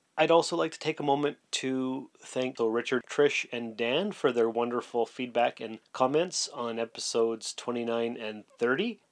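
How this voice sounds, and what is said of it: Slightly wonky voice. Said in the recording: “I've been suffering a cold, the dreaded man cold, for about 4 or 5 days now ... my voice is a little bit wonky, so if you notice anything different, that's what it is”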